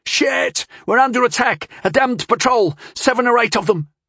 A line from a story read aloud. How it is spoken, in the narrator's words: screamed